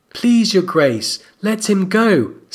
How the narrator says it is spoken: Sansa pleaded

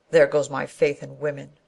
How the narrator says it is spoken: he said bitterly

